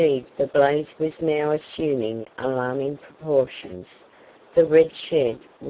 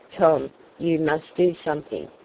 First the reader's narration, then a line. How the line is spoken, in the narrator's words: said Mr